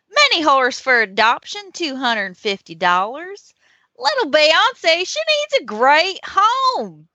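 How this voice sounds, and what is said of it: Put-on Southern accent. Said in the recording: “how do you not read this in a Southern accent? ... make it, it has to be Southern”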